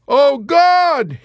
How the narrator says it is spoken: he kept shrieking with no abatement of terror

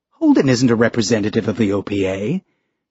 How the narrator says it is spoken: Ashford said

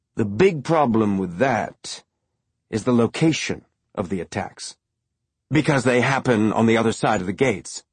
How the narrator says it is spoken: Fred said, speaking slowly as though he were working out the answer as he said it

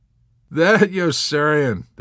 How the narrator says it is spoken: the two officers laughed

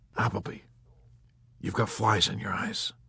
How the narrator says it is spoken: he whispered helpfully

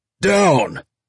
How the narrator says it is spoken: Murtry shouted at their backs

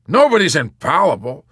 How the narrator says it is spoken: Colonel Cathcart said sharply

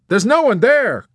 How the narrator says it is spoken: Captain Black exclaimed cheerfully

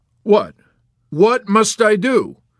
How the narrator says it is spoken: Colonel Korn laughed curtly

